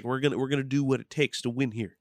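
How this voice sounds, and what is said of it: Imitates another person's voice. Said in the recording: “I gave him that accent”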